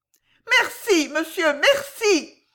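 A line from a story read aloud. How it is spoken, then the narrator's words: Hysterical woman's cry. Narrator (French): s'écria la dame d'une voix hystérique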